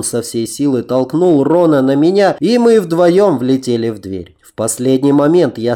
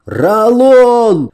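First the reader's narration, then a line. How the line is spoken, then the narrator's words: Shouted. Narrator (Russian): закричал я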